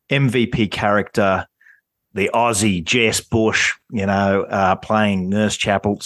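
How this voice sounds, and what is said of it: Bad put-on ocker Australian accent. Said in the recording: “Sorry, that's terrible. Ocker Australian accent.”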